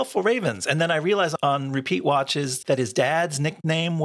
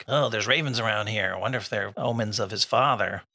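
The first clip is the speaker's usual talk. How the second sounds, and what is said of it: Imitates another person's voice. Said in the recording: “Is that what he sounds like? ... that's my Clay Spang impression.”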